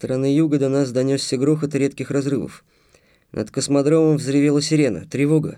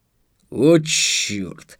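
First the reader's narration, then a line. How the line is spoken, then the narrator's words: Annoyed drawl. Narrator (Russian): досадливо протянул Марк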